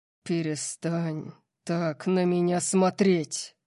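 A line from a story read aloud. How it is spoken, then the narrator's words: Terrifying growl. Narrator (Russian): Прорычал он, его ужасающего тона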